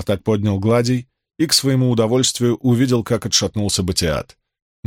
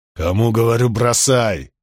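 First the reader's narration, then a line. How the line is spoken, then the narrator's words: Growl. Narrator (Russian): прорычал Фортис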